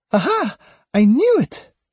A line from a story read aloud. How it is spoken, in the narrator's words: she cried, gleefully triumphant, the way only girls that young can be